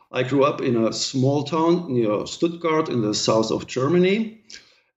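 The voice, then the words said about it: German-accented English. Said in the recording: “as you already might have guessed from my accent, I come from Germany”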